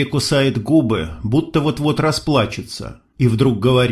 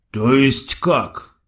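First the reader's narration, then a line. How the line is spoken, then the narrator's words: Hoarse question. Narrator (Russian): хрипло спрашивает Султан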